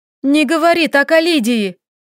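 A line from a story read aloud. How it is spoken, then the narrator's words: Angry shout. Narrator (Russian): Злобно выкрикнула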